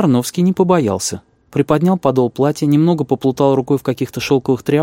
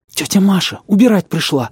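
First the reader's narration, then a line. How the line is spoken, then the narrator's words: Breathless exclamation. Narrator (Russian): выдохнула Регинка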